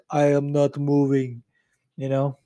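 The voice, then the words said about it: Exaggerated fake Russian accent. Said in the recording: “That was a terrible impersonation... It was just a fucking hack Russian accent.”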